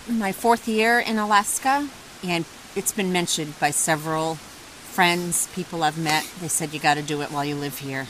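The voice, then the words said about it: Slight Boston accent. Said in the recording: “you still have a little bit of a Boston accent. Not as much of it as John, but you can hear some of it.”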